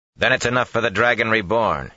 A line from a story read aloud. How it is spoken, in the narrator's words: he replied sharply